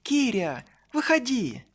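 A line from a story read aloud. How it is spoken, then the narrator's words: Friends shouting through window. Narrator (Russian): друзьям, которые уже кричали мне в окно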